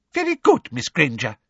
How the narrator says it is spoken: said Professor Flitwick's squeaky little voice

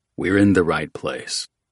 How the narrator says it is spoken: Oates said

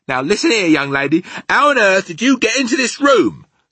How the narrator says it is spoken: the maid shouted furiously

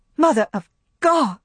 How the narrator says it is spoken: cried Scarlet, her eyes meeting Melanie's frightened eyes

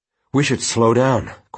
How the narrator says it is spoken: panted

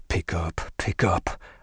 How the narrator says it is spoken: I muttered

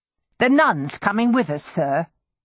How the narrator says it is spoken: he asked in a forbidding tone

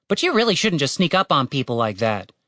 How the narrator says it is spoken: said Tim testily

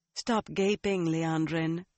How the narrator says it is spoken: the woman said calmly

